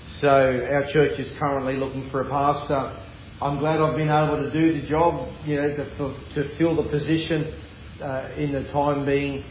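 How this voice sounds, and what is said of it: Noticeable non-local accent. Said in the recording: “I'm just talking just a little bit so you get used to my accent.”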